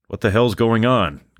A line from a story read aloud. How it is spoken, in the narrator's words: Gills cried out in pain